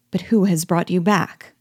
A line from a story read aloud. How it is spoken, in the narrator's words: as if suddenly recollecting himself, at last he exclaimed